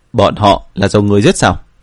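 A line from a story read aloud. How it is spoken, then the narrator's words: Cold, suppressed anger. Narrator (Vietnamese): Tổ thành chủ cố nén lửa giận, lạnh lùng nói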